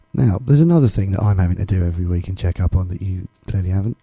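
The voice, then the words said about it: Voice sounds bad. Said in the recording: “my voice is still bad”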